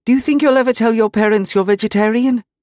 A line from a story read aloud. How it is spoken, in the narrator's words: she blurted out